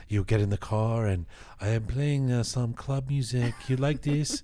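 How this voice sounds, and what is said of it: Put-on Iranian accent. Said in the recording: “Why is the accent coming out? ... They have an accent. These people. ... And then now there's an accent.”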